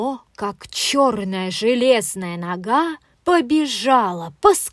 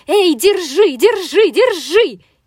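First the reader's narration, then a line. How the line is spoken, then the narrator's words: Running shout. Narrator (Russian): кастрюля на бегу закричала утюгу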